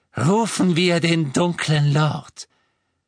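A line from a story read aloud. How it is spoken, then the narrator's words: Highly triumphant voice. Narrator (German): sagte sie mit höchst triumphierender Stimme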